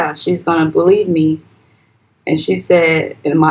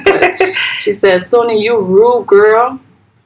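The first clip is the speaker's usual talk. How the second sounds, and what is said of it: Accent comes out while quoting. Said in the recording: “my accent's going to come out a little bit”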